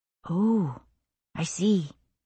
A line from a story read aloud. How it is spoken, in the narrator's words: Rachel said softly